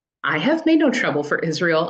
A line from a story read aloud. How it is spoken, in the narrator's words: Elijah replied